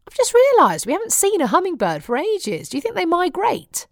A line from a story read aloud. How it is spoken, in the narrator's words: He scoffed at me